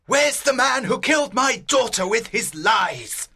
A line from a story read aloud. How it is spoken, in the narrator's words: Leonardo shouted loudly